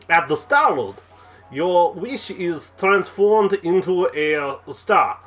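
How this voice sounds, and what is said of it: Failed attempt at Russian accent. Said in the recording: “That does not sound Russian. ... I can't do Russian. ... I don't know what accent that is”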